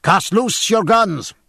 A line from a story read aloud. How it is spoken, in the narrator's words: cried James Dillon